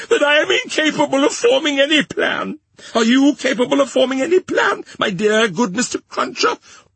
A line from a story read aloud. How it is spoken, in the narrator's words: said Miss Pross, wildly crying